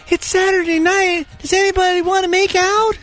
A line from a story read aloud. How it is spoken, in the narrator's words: And like she did say in her baby voice at one point